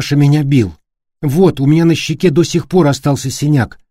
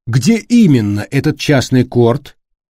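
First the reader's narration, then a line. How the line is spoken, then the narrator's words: Plain. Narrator (Russian): спросила Виктория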